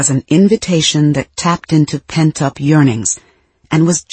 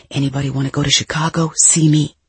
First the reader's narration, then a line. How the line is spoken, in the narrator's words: whisper without stopping